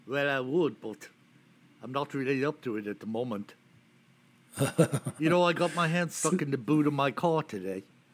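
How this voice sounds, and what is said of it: Put-on Liverpool accent. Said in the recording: “give me your best Liverpoolian accent.”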